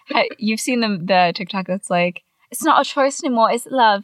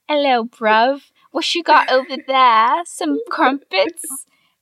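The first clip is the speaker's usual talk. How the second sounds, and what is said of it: Bad put-on English accent. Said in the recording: “We were doing such bad English accents ... Just terrible.”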